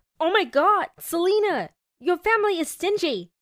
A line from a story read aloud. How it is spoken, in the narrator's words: He yelled